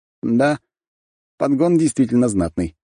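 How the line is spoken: Suppressed snort. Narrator (Russian): хмыкнул я, стараясь не шевелиться и даже не дышать

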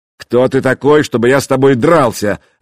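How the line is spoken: Barking snap. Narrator (Russian): рявкнул Вадимир

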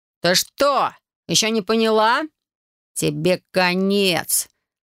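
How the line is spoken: Furious growl. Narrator (Russian): Прорычал он краснее, как перезревший помидор

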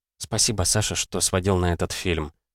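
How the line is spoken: Quiet, tearful girl. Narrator (Russian): У девушки покраснели глаза, она тихо сказала

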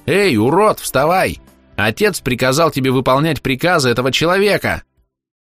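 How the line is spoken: Shrill nasty child's squeal. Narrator (Russian): Противным голосом завизжал малолетний проводник

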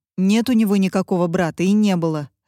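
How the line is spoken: Sharp. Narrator (Russian): резко бросила Катя

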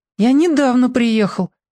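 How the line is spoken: Explaining in small voice. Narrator (Russian): разъяснил новичок прежним голоском

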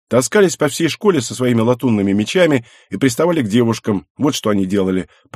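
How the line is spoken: Grumbling. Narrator (Russian): проворчала Шина

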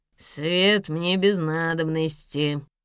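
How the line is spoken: Nasal, menacing. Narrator (Russian): произнес гнусавый, вложив в голос угрозу

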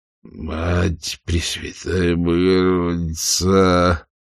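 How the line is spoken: Groaning. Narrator (Russian): простонал Джеральд, проводя сухим языком по запекшимся губам

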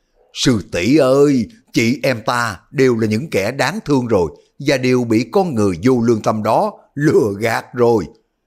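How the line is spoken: Shouted. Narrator (Vietnamese): Lý Thu Thủy hét lên

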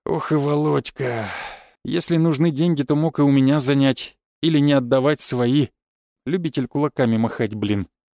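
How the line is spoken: Grumbled under breath. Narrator (Russian): пробурчал он себе под нос

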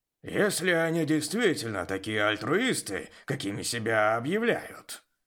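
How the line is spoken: Grumbled. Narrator (Russian): проворчал Жак

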